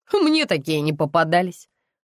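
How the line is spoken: Smirking hmph. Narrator (Russian): хмыкнула продавщица

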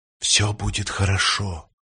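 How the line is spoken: Calm whisper. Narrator (Russian): прошептал спокойный человек

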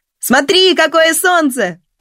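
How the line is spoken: Shouted from afar. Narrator (Russian): прокричал Родион издалека

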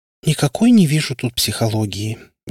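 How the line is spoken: Sighing. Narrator (Russian): вздохнула Варя

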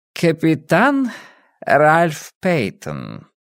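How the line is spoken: Purring. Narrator (Russian): промурлыкал мой сосед

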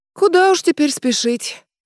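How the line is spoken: Sighing. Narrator (Russian): вздохнула Надежда

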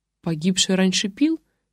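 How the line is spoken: Plain. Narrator (Russian): спросила я

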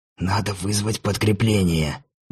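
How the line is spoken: Angry whisper. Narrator (Russian): злым шепотом встретил меня Рамон

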